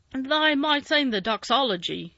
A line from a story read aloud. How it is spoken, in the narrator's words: suggested in his driest grunt